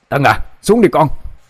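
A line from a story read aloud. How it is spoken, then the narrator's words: Loud shout. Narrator (Vietnamese): ông Vũ hét lớn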